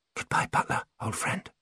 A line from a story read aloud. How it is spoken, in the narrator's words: she whispered